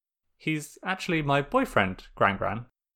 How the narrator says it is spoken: Sokka said, keeping his voice controlled

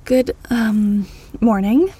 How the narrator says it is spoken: Al uneasily said

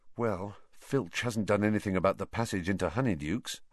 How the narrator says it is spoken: Harry said, even more quietly

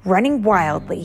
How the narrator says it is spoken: he roared

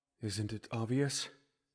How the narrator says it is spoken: Impa asked softly, almost bitterly

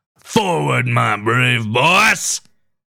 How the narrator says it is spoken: Shaw shouted

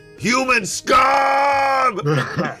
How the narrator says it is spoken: He yells

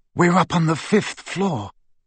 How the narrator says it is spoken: he whispered

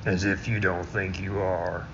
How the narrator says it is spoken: he mumbled to himself

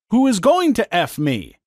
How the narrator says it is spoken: she asked

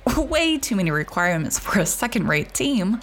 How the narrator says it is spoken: he laughed

